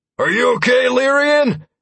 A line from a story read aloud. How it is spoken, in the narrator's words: he shouted, pitching his voice over a shrieking cry